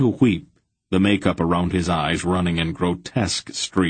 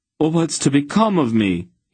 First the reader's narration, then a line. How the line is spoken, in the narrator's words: he cried